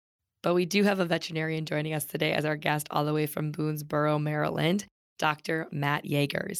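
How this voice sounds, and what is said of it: Voice sounds off, not usual. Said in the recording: “I do not sound like myself today ... Neither does my voice, apparently.”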